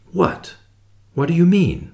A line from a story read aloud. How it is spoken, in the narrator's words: I faltered